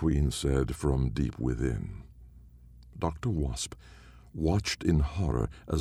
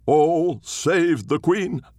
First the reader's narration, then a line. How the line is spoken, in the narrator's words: cried